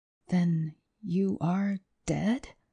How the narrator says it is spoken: he said under his breath with a slight shiver

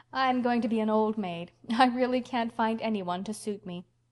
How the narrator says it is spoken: laughed Anne

